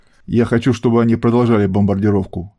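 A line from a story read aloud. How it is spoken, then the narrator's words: Predatory growl. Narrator (Russian): хищно прорычал англичанин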